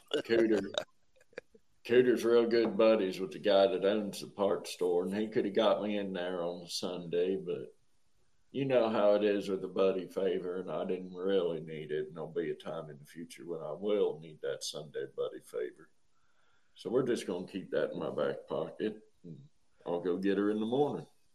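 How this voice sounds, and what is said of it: Heavy rural Southern accent. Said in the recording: “Sorry to slip into the heavy accent there. ... are we in Hazard County right now?”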